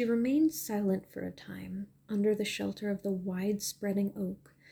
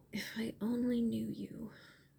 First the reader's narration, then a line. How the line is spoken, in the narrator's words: murmured